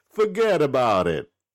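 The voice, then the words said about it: Bad put-on New York accent. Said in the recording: “that really strong New York or New Jersey accent, and it has to all be one word ... my bad accents”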